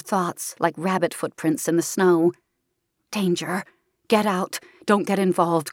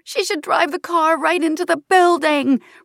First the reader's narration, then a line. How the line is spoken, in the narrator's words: Raina screams in frustration